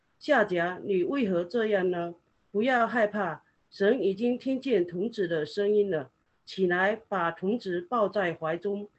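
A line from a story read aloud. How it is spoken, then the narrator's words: Angel calling from heaven. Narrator (Chinese): 神的使者从天上呼叫夏甲说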